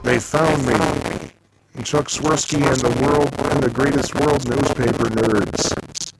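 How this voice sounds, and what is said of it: Imitates another person's voice. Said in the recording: “That's actually a very good impersonation.”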